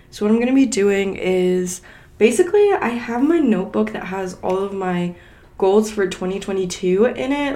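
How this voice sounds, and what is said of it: Hoarse voice cutting in and out. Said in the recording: “I sound awful ... I am losing my voice, like it's going in and out”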